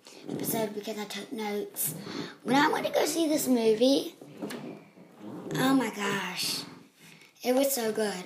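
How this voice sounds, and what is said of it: Low, tired-sounding voice. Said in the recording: “my voice is so low. I'm tired”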